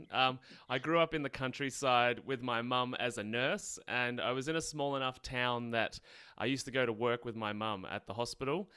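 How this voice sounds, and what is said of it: Australian accent. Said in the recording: “I'm in Australia, obviously can tell by my accent.”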